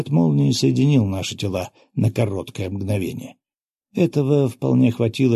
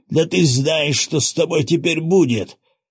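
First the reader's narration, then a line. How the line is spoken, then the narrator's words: Pained yell. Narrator (Russian): сжимая поломанную ногу, заорал тот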